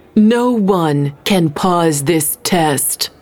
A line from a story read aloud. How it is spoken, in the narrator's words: Mallory growled